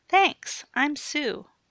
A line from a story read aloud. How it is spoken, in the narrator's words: chirped the bubbly blonde